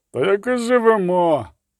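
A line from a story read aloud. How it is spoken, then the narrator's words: Grumbled after a pause. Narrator (Ukrainian): буркнув після короткої паузи хтось із задніх рядів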